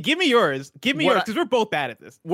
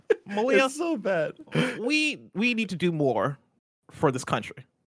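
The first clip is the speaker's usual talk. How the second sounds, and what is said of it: Imitates another person's voice. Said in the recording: “your kind of transformation ... Barack Obama ... changing into Barack Obama”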